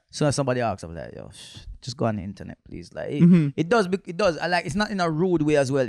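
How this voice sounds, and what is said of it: Jamaican accent. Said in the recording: “the one with the Jamaican accent”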